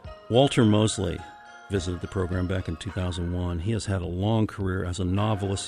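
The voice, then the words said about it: Unusually deep voice. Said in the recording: “getting over a little summer cold here. That's why my voice sounds so deep.”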